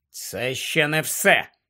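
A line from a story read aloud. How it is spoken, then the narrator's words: Grumbling. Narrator (Ukrainian): буркнув Гаррі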